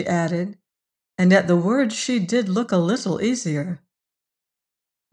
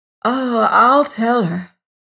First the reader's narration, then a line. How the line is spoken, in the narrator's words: breathed anxiously